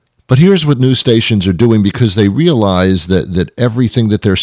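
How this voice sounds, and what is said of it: Usual voice. Nothing is said of it.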